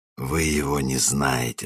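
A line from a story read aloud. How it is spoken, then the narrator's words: Weak whisper. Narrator (Russian): слабо прошептал он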